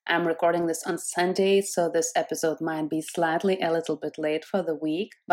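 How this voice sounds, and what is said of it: Rough, croaky sick voice. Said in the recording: “my voice sounds a little bit gremlish, kind of like, because I have been quite sick this week”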